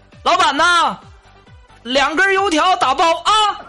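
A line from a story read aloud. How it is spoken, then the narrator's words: Shouting. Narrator (Chinese): 有位学生喊我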